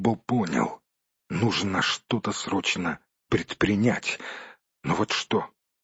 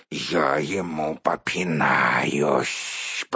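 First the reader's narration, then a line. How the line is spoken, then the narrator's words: Angry spider hissing. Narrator (Russian): прошипел разгневанный паук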